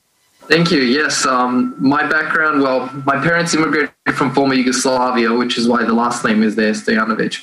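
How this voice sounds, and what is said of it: Australian accent. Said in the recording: “born and raised the only one in my family in Australia, which is where the accent comes in”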